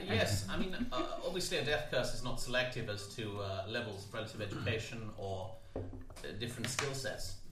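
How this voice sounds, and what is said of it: Put-on posh fantasy accent. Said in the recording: “You tell from the accent. ... Posh tabaxi. ... Posh tabaxi by accident, yes. It sort of merged the two together”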